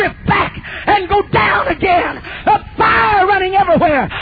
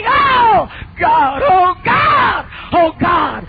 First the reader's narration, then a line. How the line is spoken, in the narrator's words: it come out screaming